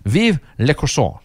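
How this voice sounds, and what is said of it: Attempted French accent. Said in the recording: “I'm trying my trying my French accent, my best French accent. ... it's almost certainly not”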